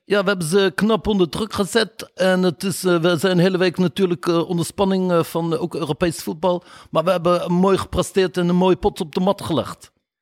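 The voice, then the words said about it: Put-on Moroccan Dutch accent. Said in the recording (Dutch): “die heeft dan een Marokkaans accent.”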